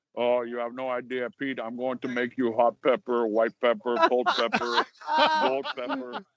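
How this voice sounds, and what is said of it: Imitates another person's voice. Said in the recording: “Rocky Patel impersonation”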